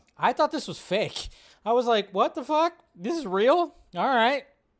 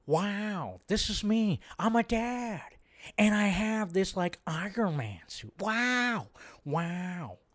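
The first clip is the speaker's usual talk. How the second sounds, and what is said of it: Imitates another person's voice. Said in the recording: “my terrible Owen Wilson impression”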